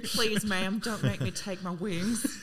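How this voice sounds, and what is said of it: Exaggerated bad southern accent. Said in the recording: “Ben Affleck with his really bad southern accent”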